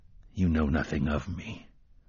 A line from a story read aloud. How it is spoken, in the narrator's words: the gunslinger said quietly